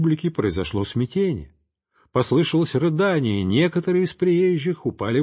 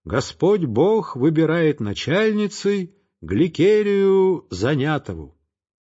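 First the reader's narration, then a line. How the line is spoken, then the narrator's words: Loud solemn proclamation. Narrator (Russian): Протодиакон громко провозгласил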